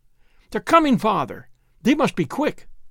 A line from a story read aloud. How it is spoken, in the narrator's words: she cried